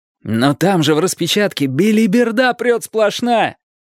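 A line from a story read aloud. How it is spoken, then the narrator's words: Wailed. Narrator (Russian): взвыл я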